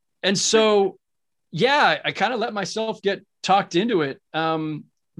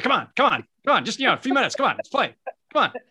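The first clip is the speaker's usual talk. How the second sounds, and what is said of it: Imitates another person's voice, badly. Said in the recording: “that bad impression”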